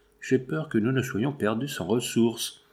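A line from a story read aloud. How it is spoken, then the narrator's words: Low voice. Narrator (French): Paul Armand dit à voix basse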